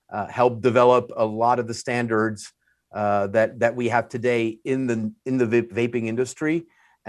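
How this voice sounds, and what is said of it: French accent. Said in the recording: “the French accent because everyone knows I'm French”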